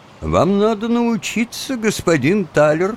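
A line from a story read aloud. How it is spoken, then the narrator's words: Plain. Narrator (Russian): сказал Трёч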